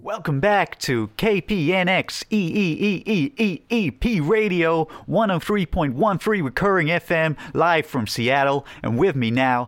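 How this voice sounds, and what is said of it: Poor put-on American radio-host accent. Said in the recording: “I was a radio host from some nonsense radio station in Seattle. I did an American accent as best I can, which is not well at all.”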